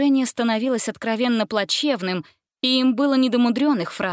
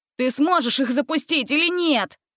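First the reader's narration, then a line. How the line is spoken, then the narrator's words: Shout. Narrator (Russian): крикнул Ганзель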